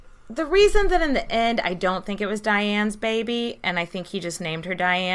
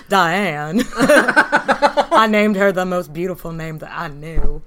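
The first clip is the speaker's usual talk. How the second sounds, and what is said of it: Impression of a film character's voice. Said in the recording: “You do a really good impression. ... I do a really good Forrest Gump.”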